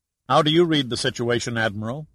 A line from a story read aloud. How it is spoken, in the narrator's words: asked